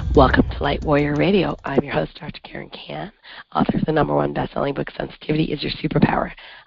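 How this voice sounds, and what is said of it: Raspy, hoarse voice. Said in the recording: “I don't normally sound like this raspy voice... I've been like this for about 2 weeks”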